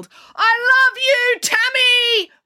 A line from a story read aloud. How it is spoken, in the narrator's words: very loudly so everyone in the whole playground and the supermarket car park next door could hear